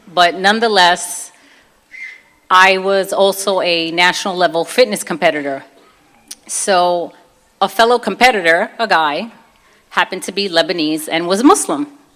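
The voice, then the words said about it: Brooklyn accent. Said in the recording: “I'm from Brooklyn. So if you could tell a little bit by my accent.”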